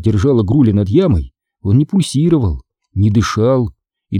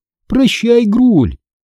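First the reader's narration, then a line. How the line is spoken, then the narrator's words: Joyful. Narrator (Russian): радостно добавила я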